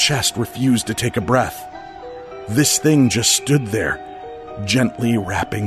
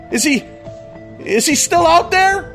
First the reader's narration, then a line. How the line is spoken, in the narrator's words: I yelled